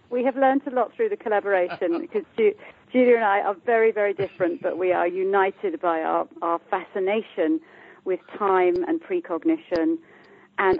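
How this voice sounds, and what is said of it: British accent. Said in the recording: “I'm from the UK, as you can hear by my accent”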